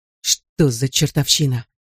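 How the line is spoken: Hoarse rasp. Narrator (Russian): прохрипел Донни

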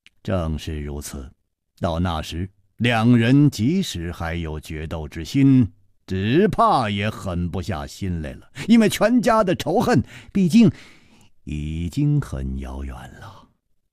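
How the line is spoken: Laughing. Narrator (Chinese): 楚留香笑着说

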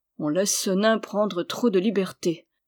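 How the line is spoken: Young man's frowning murmur. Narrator (French): murmura le jeune homme dont les sourcils se fronçaient

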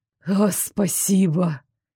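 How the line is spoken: Sincere exhale. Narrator (Russian): искренне выдохнул Дары

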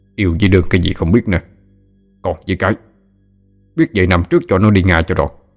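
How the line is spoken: Angry scolding. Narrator (Vietnamese): Ông giận dữ mắng

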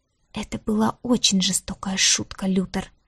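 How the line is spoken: Whisper. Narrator (Russian): прошептала Диара

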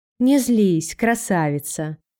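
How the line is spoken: Gentle male voice. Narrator (Russian): ласково произнес шериф

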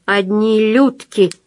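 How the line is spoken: Grumble. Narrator (Russian): проворчал

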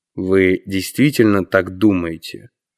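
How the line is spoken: Cold question. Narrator (Russian): холодно спросил Мэллоу

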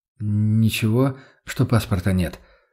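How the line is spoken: Timid question. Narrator (Russian): робко спросил

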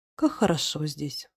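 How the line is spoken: Sigh after pause. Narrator (Russian): вздохнула после паузы

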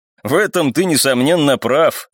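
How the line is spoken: Unpleasant chuckle. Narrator (Russian): неприятно хохотнул второй

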